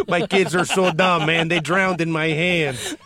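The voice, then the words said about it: Imitates another person's voice, accented. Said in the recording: “this Vito D'Amico impression... He's got a bit of an accent”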